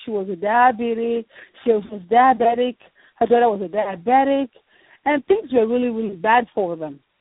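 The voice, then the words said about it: Nigerian accent. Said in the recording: “I'm from Nigeria, I have an accent.”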